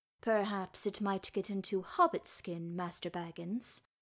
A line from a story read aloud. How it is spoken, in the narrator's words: said Dory kindly